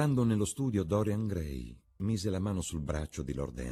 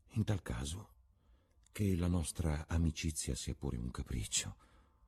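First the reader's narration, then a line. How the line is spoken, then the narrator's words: Shy blushing murmur. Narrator (Italian): mormorò, arrossendo dalla propria audacia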